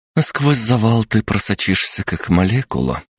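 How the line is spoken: Weary sigh. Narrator (Russian): устало вздохнула Маша

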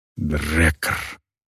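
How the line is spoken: Whispering orc woman. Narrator (Russian): прошептала орка

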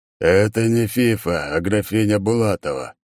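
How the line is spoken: Spoken, then exhaling. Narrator (Russian): проговорил он и выдохнул

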